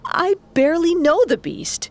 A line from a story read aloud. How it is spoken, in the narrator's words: shouted